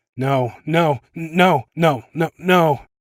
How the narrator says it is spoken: stammered

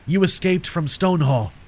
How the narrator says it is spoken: he said urgently

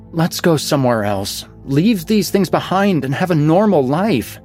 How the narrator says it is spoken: my mouth blurted, independently of my brain

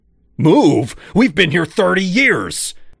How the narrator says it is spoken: Dad shouted

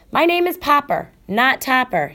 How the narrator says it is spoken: shouted Mr

